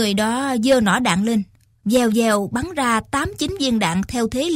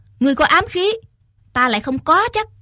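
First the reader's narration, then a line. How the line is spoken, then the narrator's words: Loud shout. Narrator (Vietnamese): Lại thêm một người khác quát lớn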